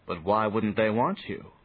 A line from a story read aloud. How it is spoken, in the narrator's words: said Johnny